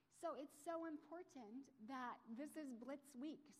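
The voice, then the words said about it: Choked up, emotional voice. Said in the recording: “I'm getting all choked up.”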